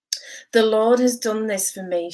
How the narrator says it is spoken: she said

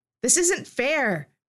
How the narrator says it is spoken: shouted from the back of their group

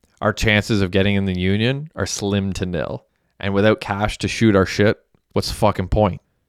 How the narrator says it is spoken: R-Luv sighed

